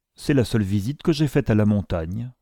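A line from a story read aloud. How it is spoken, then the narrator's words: Dry, curt. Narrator (French): continua sèchement Mr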